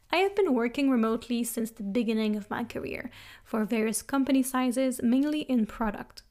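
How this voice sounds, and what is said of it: Slight French Canadian accent. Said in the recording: “I am Canadian from Montreal, see the little French accent”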